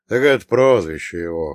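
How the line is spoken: Snort. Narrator (Russian): хмыкнул Прокоп

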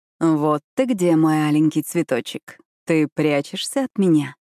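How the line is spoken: Purring. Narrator (Russian): промурлыкал Сайлас

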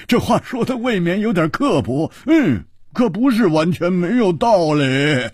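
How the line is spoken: Hearty laughter. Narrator (Chinese): 胡铁花大笑

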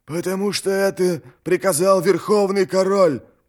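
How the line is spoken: Hissed. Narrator (Russian): прошипел Хурик

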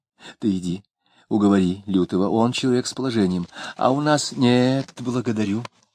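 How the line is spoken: Whispering again. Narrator (Russian): Варвара снова зашептала мужу

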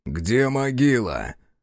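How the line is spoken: Hollow, muffled question. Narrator (Russian): глухо спросил Бучило

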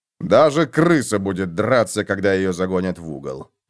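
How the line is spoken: Grumbling. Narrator (Russian): проворчал фон Вольген

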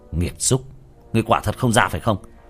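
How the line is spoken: Shrill shout. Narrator (Vietnamese): Tiểu Thất lại quát lên chói tai

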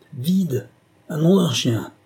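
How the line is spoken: Yelling. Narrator (French): hurla

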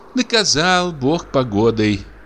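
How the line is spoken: Sigh. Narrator (Russian): вздохнула дичиха

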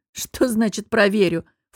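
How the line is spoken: Snorting. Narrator (Russian): фыркнула я

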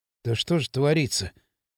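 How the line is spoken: Dejected mutter. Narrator (Russian): сокрушенно пробормотал Кирилл

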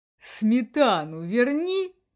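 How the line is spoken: Offended sigh. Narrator (Russian): обиженно вздохнул Бакс

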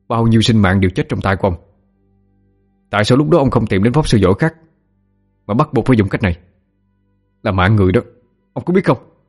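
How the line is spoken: Angry shout. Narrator (Vietnamese): Biết là lão già này cũng không tốt lành gì, cậu bèn quát

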